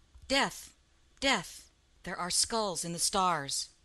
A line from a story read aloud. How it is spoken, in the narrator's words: Cain sighed